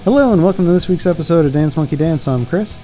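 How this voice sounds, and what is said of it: Announcer voice. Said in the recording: “you just went into announcer voice”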